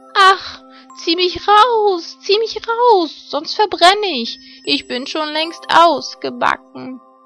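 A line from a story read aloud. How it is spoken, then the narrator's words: Calling out. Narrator (German): Das Brot aber rief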